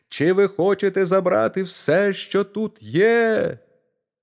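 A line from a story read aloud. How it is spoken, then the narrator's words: Shouting at full voice. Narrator (Ukrainian): Мізинчик як закричить на все горло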